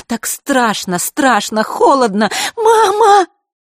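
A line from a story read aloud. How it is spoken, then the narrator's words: Frightened scream. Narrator (Russian): закричала Василиса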